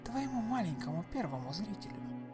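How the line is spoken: Barely audible woman. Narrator (Russian): едва слышно произнесла Марго

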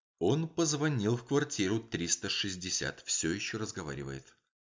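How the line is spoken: Whisper. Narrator (Russian): Делла Стрит прошептала

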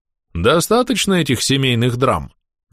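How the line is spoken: Mocking. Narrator (Russian): насмешливо произнес самый рослый архалус, которого я определил как предводителя

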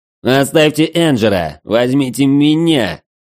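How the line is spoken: Pleading shout. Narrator (Russian): умоляюще выкрикнул Граций

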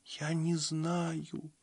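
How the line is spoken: Quiet whimper. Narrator (Russian): тихо проскулила Табита

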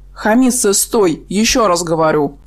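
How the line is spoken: Menacing growl. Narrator (Russian): уже более грозно прорычал Редстов

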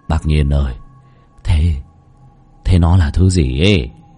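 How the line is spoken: Trembling question. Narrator (Vietnamese): run rẩy hỏi Lão Nhiên

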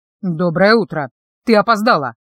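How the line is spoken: Fairly sharp statement. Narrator (Russian): достаточно резко констатировал

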